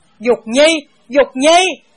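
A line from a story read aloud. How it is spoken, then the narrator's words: Anguished loud shout. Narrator (Vietnamese): Hai mắt Bàng Thế Sư đỏ sậm, tựa như muốn nứt ra, hét lớn hai tiếng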